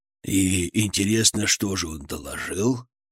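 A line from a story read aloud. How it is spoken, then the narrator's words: Anticipatory snort. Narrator (Russian): Брежнев хмыкнул, предвкушая развязку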